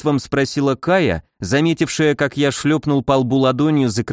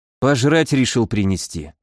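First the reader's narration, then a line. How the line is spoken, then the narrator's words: Tired. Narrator (Russian): устало перевел я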